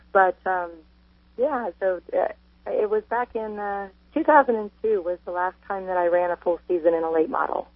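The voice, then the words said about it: Sick-sounding voice. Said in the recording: “apologize for my voice. I'm coming down with a cold.”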